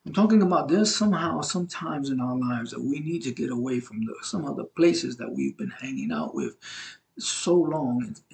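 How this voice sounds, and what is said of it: Brooklyn, New York accent. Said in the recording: “I'm from Brooklyn, New York, and so I have an accent.”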